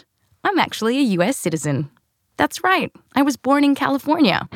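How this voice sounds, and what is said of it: Australian accent. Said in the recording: “because of this accent ... the accent's actually real, but I was born here, raised in Australia”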